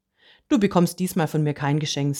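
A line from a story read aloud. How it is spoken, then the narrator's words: Plain. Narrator (German): sagte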